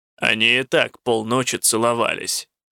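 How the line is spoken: Grumbling. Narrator (Russian): заворчал Коссел

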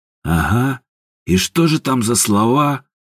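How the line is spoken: Snorting. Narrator (Russian): хмыкнул Степан

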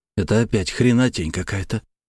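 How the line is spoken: Nervous whisper. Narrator (Russian): прошептал я, чувствуя, как мое сердце ускоряет ритм

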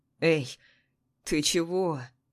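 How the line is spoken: Gentle question. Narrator (Russian): ласково спрашивает мой бывший студент

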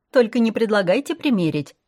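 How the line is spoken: Cheerful. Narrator (Russian): весело сказала

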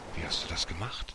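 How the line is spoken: Astonished whispered question. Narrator (German): Martin fragte den Fremden vor Erstaunen flüsternd

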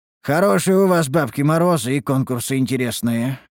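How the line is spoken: Wry snort. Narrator (Russian): хмыкнул я

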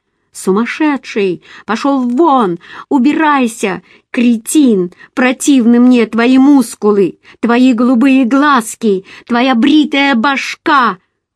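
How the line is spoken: Screamed. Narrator (Russian): Я снова закричала

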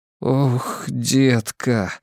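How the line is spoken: Breathless, anguished. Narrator (Russian): выдохнул я, забыв обо всем, кроме ее боли

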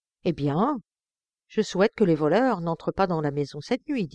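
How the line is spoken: Plain. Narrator (French): dit-il

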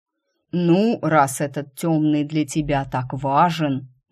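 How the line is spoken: Promising drawl. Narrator (Russian): многообещающе протянул инкуб

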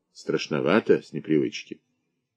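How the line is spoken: Gentle, kind veteran. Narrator (Russian): Старослужащий Игнатий Некрасов сказал ласково

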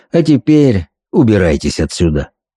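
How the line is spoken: Falsely polite voice. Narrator (Russian): любезным голосом предложил

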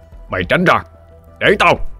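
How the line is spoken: Thunderous booming voice. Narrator (Vietnamese): Quăng lửa nói bằng chất giọng vang như sấm rền

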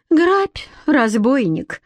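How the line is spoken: Sigh. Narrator (Russian): вздохнула Лидка

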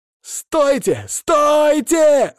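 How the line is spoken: Shouting. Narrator (Russian): закричал он

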